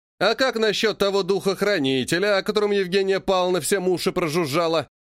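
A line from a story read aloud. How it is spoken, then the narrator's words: Snide question. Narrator (Russian): ехидно спросил кто-то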